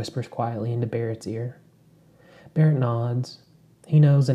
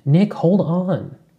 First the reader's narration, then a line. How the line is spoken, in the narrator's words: Crystal yells from inside the hut